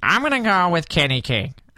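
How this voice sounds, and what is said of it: Imitates another person's voice. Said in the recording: “can I do the Dave voice?”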